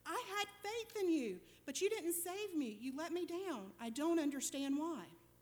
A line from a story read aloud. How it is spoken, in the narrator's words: he exclaimed